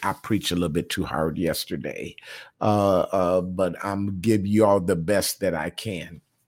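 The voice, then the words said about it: Raspy, strained voice. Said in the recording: “My voice sounds a little raspy.”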